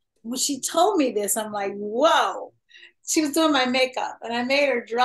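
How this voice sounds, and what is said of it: Usual voice. Nothing is said of it.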